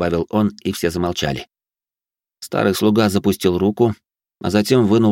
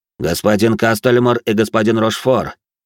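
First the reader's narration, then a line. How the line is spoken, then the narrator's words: Loud. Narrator (Russian): громко произнес он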